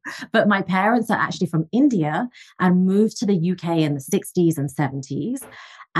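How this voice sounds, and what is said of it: English accent. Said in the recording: “I'm originally from England, as you can tell from the accent.”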